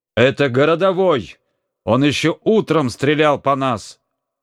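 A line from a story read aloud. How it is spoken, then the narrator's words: Crowd shouting. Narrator (Russian): кричали в толпе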